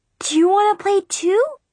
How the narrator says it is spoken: Brianna asked excitedly

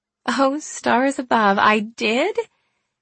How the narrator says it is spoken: I laughed out loud at the thought of my audacious former self

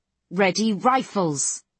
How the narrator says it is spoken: Fry bellows again

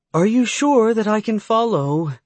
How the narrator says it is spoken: She asked nervously

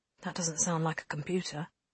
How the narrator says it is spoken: Lane murmured

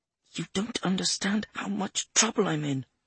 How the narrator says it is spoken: she muttered

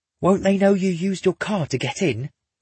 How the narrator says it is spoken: Grant hisses

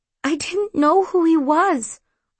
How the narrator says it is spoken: I whimpered

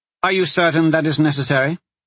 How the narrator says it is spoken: Kalana asked sharply

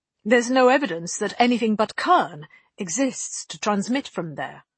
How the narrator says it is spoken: Vetus said sharply

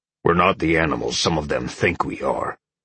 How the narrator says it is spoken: Oak grumbled

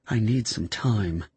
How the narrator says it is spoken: she mumbled

